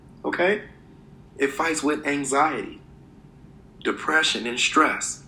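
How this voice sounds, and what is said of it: Usual voice. Nothing is said of it.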